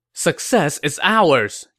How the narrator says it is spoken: Zhuge Liang exclaimed

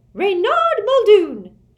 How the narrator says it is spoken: she called out

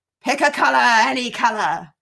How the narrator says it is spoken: the man, who had an old wrinkled face said in a gruff voice

